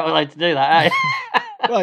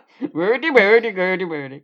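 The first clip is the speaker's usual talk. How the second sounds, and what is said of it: Imitation of the Muppets chef. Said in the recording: “It reminded me of the chef from The Muppets. ... You're doing an impression of a Muppet.”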